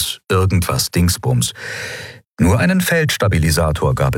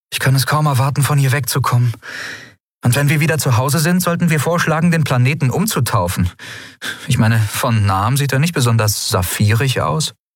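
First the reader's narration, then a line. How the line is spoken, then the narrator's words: Sighing. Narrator (German): seufzte sie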